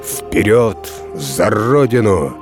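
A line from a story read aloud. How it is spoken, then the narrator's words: Menacing shout, commander. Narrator (Russian): Полководец грозно крикнул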